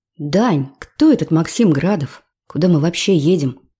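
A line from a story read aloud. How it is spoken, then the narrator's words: Sighing. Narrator (Russian): вздохнула Кира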